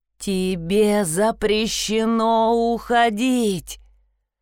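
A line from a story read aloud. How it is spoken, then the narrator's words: Shouting. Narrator (Russian): Он кричал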